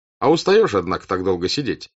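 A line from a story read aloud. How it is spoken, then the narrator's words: Plain. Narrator (Russian): сказал он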